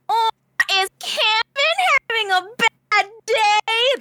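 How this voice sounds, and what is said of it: Loud nasal whiny drawn-out voice. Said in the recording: “make it a really loud nasal whine and draw the word out ... That was my Sam impression.”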